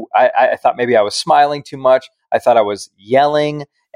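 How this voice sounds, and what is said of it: Very loud, yelling voice. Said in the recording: “either your audio is very high or you're yelling. ... Do you want me to take it down a notch?”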